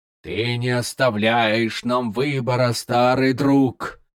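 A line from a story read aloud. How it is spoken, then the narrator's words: Hissing. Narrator (Russian): Малига зашипел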